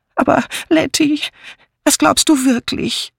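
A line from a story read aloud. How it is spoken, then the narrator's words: Whining. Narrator (German): jammerte Miss Banner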